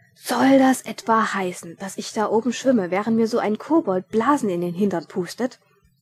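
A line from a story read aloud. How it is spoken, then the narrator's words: Indignant thunder. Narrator (German): donnerte Ridkali empört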